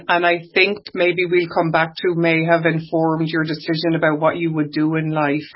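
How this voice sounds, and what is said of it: Irish accent. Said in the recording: “What do you mean I don't have an Irish accent? ... he doesn't hear my Irish accent.”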